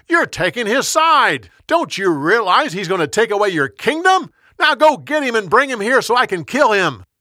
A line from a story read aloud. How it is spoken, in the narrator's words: Saul yelled at his son